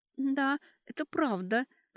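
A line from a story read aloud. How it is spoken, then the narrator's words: Thin trembling voice. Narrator (Russian): тоненьким дрожащим голоском сказала Кэтри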